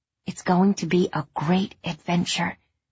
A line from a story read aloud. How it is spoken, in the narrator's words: Rusty whispered